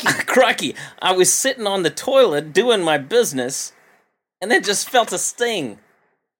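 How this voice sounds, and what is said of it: Attempted Australian accent. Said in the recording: “I don't know if I can do an Australian accent. This could be tough.”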